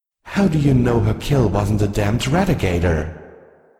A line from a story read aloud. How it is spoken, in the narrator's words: spat